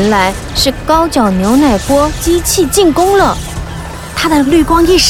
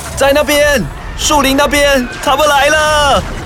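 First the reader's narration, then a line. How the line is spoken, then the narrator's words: Hoarse male shout. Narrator (Chinese): 男人嘶哑地喊道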